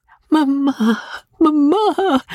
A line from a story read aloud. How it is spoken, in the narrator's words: cried the bewildered girl